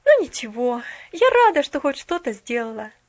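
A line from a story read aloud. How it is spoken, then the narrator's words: Woman's silent inner sigh. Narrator (Russian): вздохнула она про себя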